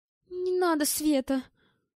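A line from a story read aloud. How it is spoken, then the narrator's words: Pleading. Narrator (Russian): взмолилась Лариса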